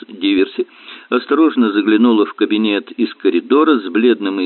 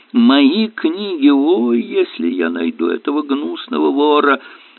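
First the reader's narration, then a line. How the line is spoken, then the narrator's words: Sudden groan. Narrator (Russian): внезапно застонал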